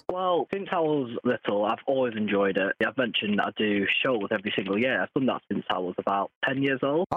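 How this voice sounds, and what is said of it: British accent. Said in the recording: “I got that a lot with my British accent.”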